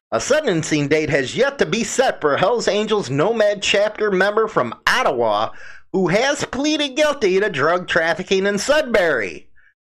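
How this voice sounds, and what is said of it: Chicago accent. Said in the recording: “my Chicago accent”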